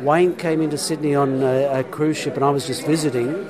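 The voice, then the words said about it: Yorkshire English accent. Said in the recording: “I'm sorry for the Yorkshire. That's my accent.”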